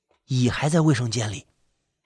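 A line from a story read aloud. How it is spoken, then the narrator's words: Quick whisper. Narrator (Chinese): 丁快速的低声说了一句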